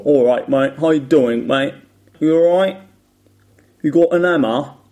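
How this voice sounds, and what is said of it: Attempted Cockney accent. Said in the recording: “I can't do the Cockney accent ... I know how it sounds ... some vowel changes and age-dropping thing ... it's so difficult for me”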